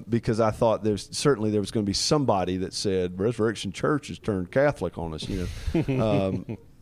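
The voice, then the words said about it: Strong regional accent. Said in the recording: “sorry for the accent ... All of our northern listeners are already thinking you have a ridiculous accent.”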